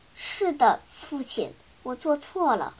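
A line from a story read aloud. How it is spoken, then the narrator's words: Low-voiced reply. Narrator (Chinese): 闵子骞低声回答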